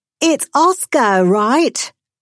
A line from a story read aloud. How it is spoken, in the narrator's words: shouted